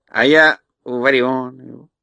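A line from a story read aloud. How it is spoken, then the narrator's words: Plain. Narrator (Russian): сказал Татошка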